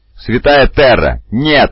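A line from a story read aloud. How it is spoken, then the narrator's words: Yelling. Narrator (Russian): завопил Гуртада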